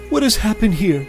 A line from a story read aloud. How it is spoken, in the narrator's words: Mary Magdalene cried out